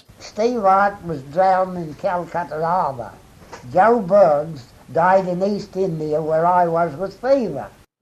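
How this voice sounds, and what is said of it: Old-fashioned Australian accent, linking r. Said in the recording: “a gentleman who was born in 1880 ... the kind of accent that was around at the time of Federation ... he says Calcuttaraba ... he's putting an ur in there again”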